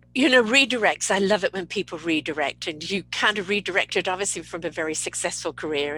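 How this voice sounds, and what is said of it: British accent. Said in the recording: “I love the sound of your voice... The old British accent here.”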